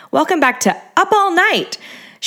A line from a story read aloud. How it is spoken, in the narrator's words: she twisted the up into a high-pitched squeak like a dolphin